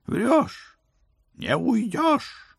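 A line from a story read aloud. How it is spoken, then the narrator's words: Furious howl. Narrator (Russian): взвыл государственный преступник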